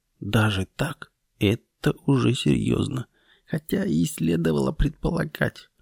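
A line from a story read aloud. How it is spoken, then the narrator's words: Muttering. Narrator (Russian): бормоча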